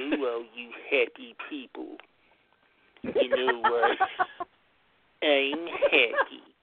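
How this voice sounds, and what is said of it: Imitates cartoon character Droopy's voice. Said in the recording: “your vocal impersonation of the cartoon character Droopy”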